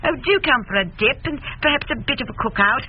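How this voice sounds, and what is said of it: Poor imitation of English accent. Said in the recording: “I think she's English. ... If she has an accent like that, she is certainly not American or anything else. You're not good at accents, honey.”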